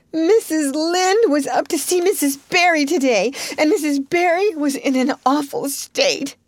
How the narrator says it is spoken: she wailed

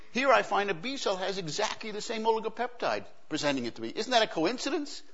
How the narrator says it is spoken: she says excitedly

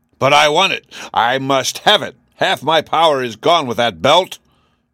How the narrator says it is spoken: roared the king

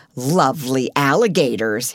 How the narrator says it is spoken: sneered

